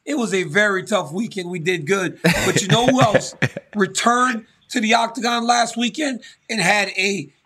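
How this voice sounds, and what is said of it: Hoarse, strained, nearly lost voice. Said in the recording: “My voice is gone.”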